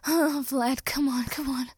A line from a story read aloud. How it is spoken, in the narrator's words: Danny gasped and panted